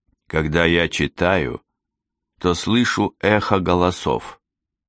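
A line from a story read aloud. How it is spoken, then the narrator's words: Plain. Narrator (Russian): сказал он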